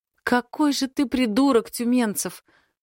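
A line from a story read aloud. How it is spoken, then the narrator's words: Sobbing woman. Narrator (Russian): всхлипывает она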